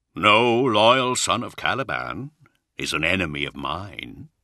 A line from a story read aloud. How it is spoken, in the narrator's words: he answered coolly